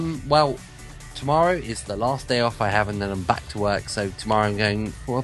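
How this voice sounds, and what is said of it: Usual voice. Nothing is said of it.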